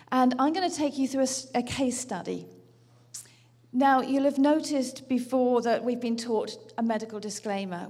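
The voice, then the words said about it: British accent. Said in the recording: “I'm ... from the UK, as you can tell from my accent”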